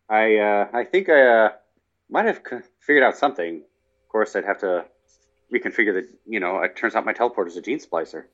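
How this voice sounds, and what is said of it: Weak imitation of another person's voice. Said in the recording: “is that your Jeff Goldblum impression? ... Jeff Goldblum is not in your wheelhouse ... I'm horrible. I can't. It's just so tough to do.”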